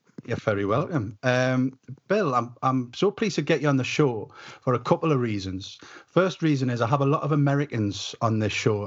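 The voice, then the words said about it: Northumbrian English accent. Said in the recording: “my dulcet Northumbrian tones ... Full on Northumbrian”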